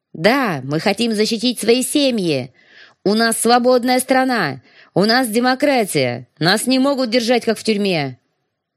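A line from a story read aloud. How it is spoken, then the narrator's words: Shouting in chorus. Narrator (Russian): Я кричала вместе с остальными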